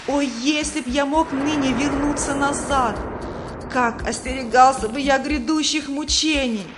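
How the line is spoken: Wailing. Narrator (Russian): Третий вопил

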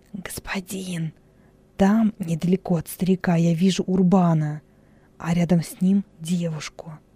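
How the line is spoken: Whisper. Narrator (Russian): Хилон шепнул

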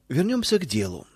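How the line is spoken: Cold tone. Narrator (Russian): холодным тоном продолжил он

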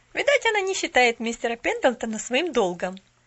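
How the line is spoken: Very snide. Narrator (Russian): весьма ехидно предположила Нэнси

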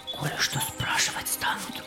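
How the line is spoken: Whisper. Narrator (Russian): шепнул он

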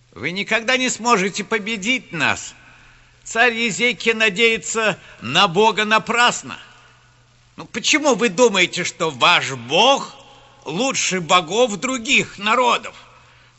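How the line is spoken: Shouting again. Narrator (Russian): Снова закричал посол

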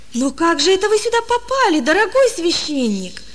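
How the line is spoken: Exclaiming. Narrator (Russian): воскликнул он

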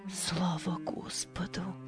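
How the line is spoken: Mother whispering. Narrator (Russian): прошептала мать

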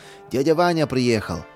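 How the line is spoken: Joyful exclamation. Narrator (Russian): обрадовался он

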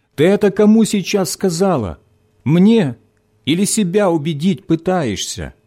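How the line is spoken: Shout after someone. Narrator (Russian): крикнул Виктор в спину забежавшей в подъезд девушки

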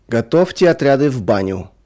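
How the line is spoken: Sudden guard's shout. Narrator (Russian): вдруг крикнул конвоир

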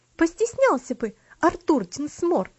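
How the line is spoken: Indignant exclamation. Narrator (Russian): с негодованием воскликнула Луси

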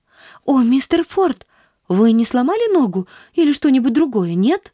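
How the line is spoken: Anxious, worried question. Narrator (Russian): взволнованно спросила она

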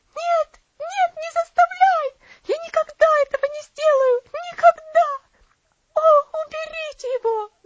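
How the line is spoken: Terrified scream. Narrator (Russian): закричала она

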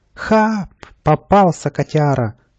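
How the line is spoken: Joyful squeal. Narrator (Russian): радостно взвизгнул Каприска

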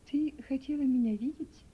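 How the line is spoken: Gentle woman asking. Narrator (Russian): мягко спросила миссис Берт

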